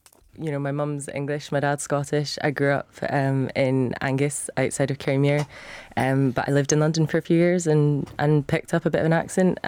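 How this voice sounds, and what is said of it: Scottish accent. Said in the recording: “fake Scottish accent ... the Scottish accent comes up a wee bit stronger when I'm back home”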